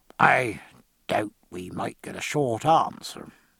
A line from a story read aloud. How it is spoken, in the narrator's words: said Pullings in a low voice